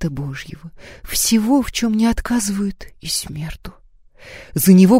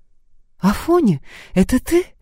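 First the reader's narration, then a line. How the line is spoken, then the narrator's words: Joyful question. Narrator (Russian): радостно спросил он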